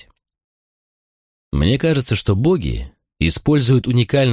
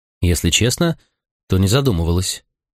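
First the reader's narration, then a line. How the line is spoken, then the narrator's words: Serious tone. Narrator (Russian): уже более серьезным тоном ответила девушка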